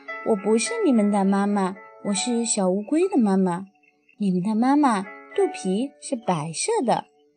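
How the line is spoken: Laughing. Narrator (Chinese): 大乌龟笑着说

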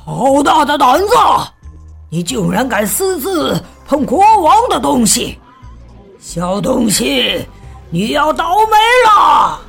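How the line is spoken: Monster roaring. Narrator (Chinese): 怪物大吼

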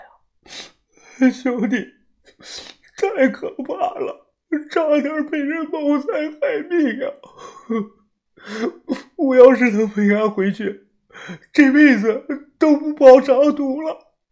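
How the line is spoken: Tearful. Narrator (Chinese): 他哭着脸说

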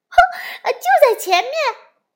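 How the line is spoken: Excited shouting. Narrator (Chinese): 青蛙们兴奋地大叫起来

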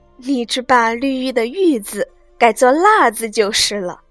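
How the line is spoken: Laughing. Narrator (Chinese): 宝钗笑道

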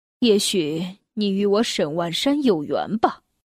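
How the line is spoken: Sighing. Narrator (Chinese): 他叹了口气说

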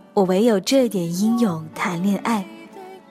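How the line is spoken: Tender, lingering singing. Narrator (Chinese): 从野孩子唱到烈女，声音缠绵悱恻

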